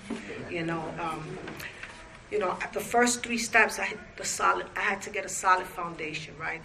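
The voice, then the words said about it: Slight non-native accent. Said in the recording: “some of my words might get tangled because I have a little accent”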